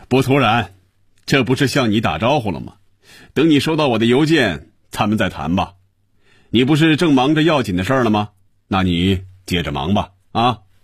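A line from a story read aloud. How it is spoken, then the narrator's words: Satisfied, laughing. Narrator (Chinese): 余威感觉舒服、满足、痛快，他笑着说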